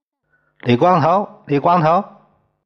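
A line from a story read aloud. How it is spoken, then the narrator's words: Affectionate call while eating. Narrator (Chinese): 宋刚一边美美的吃着，一边亲热的叫着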